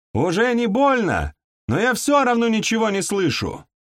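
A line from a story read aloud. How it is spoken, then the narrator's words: Wailing yell. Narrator (Russian): завопила заводь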